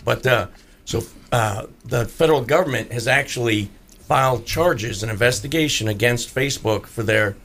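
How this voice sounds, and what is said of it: Hoarse voice. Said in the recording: “apologize for my voice. I got a hoarse cough.”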